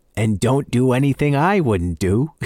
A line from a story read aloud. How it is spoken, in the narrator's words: his father called, and then added with a mischievous chuckle